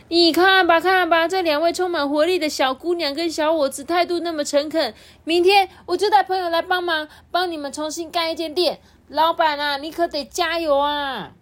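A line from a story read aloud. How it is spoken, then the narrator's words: Loud. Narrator (Chinese): 小众啊，也接着大声的对阿九说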